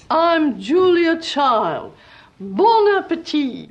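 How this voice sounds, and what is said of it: Meryl Streep impersonating Julia Child. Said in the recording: “Meryl Streep as Julia Child ... that's almost more an impersonation than acting”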